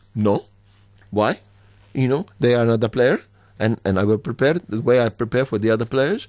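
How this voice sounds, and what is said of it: Imitates another person's voice and accent. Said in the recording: “Very good accent. ... Very good impersonation.”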